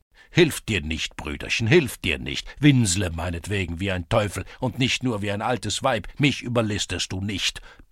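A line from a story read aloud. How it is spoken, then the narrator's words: Roaring. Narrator (German): brüllte der Schulze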